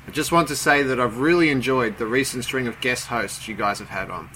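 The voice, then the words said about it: Distinct non-American accent. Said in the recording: “Even more awesome is your accent.”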